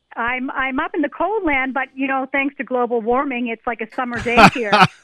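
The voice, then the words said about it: Canadian accent. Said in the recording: “you got your accent back again. I was just going to say, eh?”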